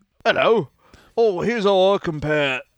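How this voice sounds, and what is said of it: Put-on British accent. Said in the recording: “That's a British accent”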